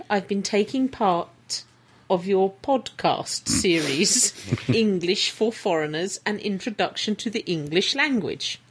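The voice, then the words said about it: Poor put-on Swedish accent, drifting. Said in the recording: “I can't do a Swedish accent. It's going to go Pakistani and Welsh”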